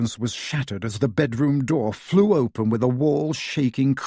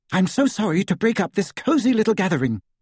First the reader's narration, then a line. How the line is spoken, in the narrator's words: she said, her voice trembling